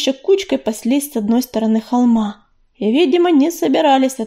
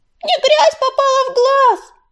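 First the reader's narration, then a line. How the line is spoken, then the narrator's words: Squeaking. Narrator (Russian): запищал Березовик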